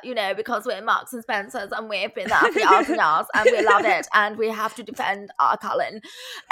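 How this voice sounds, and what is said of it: Good put-on posh accent. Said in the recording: “that is a great posh accent”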